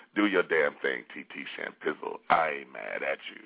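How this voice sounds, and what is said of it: Put-on sexy voice. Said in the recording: “That's just my little sexy voice.”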